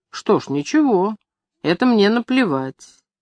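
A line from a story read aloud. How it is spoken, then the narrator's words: Calm. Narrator (Russian): Кочегар спокойно говорил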